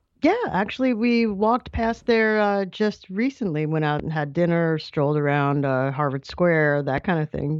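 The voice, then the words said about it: New York accent. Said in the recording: “my equally horrible New York accent”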